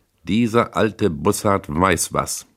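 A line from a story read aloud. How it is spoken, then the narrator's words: Said loudly. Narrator (German): sagte laut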